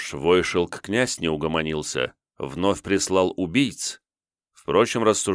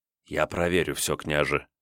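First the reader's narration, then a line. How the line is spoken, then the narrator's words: Whisper in the ear. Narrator (Russian): шепнул на ухо Степан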